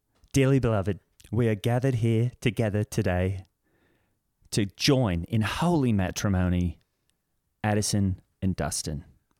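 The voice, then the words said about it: Put-on Cockney accent. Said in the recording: “I did a bit of a Cockney accent ... It goes up. ... That was great. ... You nailed it.”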